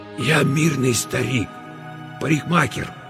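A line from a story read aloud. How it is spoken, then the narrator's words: Hoarse strained whisper. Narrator (Russian): хриплым шепотом выдавил Мосес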